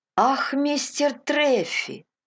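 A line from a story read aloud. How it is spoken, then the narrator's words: Exclaimed. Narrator (Russian): воскликнул Кристи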